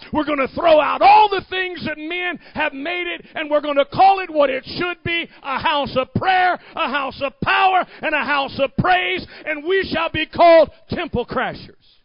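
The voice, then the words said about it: Preacher voice. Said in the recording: “I even used my preacher voice.”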